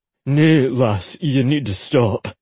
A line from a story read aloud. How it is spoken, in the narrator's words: Ollie growled